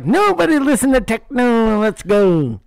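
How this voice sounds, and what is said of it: Imitates another person's voice. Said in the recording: “my Eminem impression”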